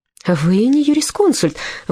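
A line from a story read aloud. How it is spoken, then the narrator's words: Elderly woman exclaiming. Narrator (Russian): воскликнула пожилая дама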